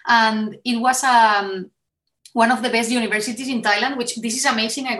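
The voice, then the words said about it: Noticeable non-native English accent. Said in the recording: “unbelievable with this accent”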